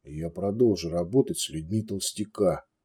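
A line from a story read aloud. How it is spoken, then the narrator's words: Quiet reply. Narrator (Russian): тихо ответил Балдер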